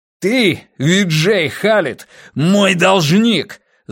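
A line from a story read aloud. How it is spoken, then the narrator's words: Furious spluttering yell. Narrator (Russian): заорал Волк, брызгая слюной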